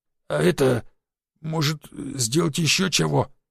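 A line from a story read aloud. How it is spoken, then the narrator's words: Hoarse, surprised, grateful vagrant. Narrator (Russian): прохрипел бомж, удивленно, благодарно и в то же время преданно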